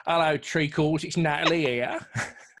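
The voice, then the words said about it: Mock Cockney impression of another person. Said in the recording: “impersonating you ... bow bells.”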